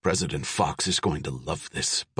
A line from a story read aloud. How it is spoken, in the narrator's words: Bunch whispered